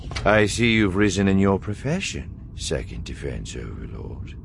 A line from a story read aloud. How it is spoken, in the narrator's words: Thrawn said calmly